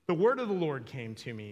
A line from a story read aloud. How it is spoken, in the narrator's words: says